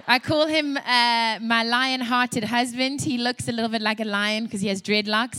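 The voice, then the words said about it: South African accent. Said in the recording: “you can hear from my accent as well. I was raised in South Africa.”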